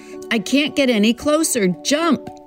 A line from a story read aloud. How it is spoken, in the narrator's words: he shouts as the boat gurgles and sinks now in the trough